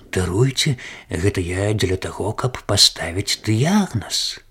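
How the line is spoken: Muttered. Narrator (Belarusian): доктар прамармытаў

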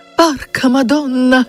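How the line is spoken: Short cry. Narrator (Belarusian): Яна коротка ўскрыкнула

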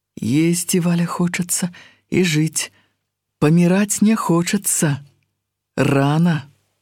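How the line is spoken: Sighing. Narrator (Belarusian): Уздыхнул

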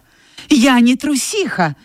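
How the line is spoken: Offended exclamation. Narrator (Russian): воскликнула она от обиды, забывая о своем страхе

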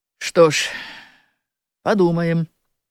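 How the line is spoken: Calm agreement. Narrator (Belarusian): спакойна згадзіўся сакратар

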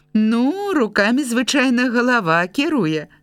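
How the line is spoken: Librarian laughing. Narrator (Belarusian): засмяялася бібліятэкарка

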